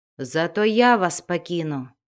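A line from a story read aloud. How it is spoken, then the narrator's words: Plain. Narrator (Russian): ответил ей Вульфгар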